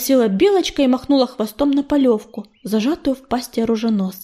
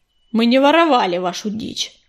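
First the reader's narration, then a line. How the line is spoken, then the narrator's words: Snapping retort. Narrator (Russian): огрызнулся чернохват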